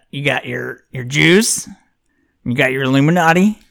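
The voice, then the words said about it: Put-on Southern US dumb-guy accent. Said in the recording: “You can't not do a Southern accent sometimes when you're trying to do a character. ... Dumb guy? ... I can't say anything dumb without making this voice.”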